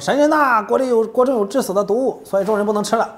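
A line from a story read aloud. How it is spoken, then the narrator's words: Shouting. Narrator (Chinese): 喊叫说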